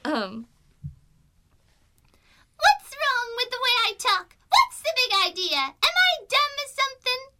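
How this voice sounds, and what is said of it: Screechy high-pitched character voice. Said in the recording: “do that voice? ... I'm doing it in my head voice ... Lena's, screech”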